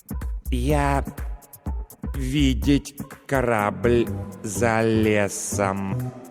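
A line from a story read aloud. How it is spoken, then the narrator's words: Slow. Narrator (Russian): медленно произнес лингуампир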